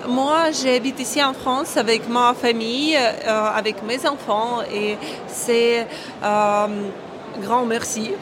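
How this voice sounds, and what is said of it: Ukrainian accent speaking French. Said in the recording (French): “vous avez un accent, on l'a tous entendu... vous êtes ukrainienne”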